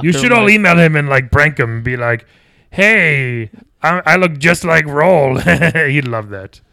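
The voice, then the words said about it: Inconsistent put-on Long Island accent. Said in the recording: “My voice is changing a bunch ... That Long Island / Skull Island accent is just really all over.”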